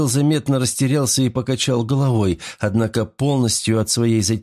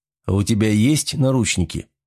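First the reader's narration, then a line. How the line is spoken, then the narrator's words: Smirking snort. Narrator (Russian): хмыкнул Морозов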